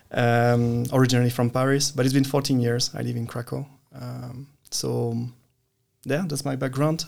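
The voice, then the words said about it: Slight French accent. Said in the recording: “I come from France, as you can hear a bit in the accent.”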